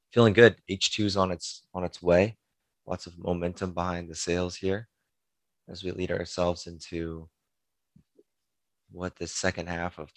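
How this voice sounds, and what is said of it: Hoarse, gravelly voice. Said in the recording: “You're sounding a bit grizzly ... Maybe I'll come off like a better late night DJ voice today.”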